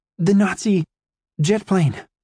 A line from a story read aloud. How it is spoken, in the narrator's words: I stammered, trying to catch my breath